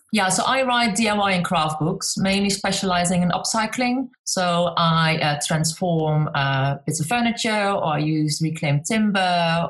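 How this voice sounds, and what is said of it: Slight Dutch accent, fast speech. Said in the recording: “I got a bit of an accent. I talk really fast ... especially when I get very excited ... with your accent, we'll have to slow you down”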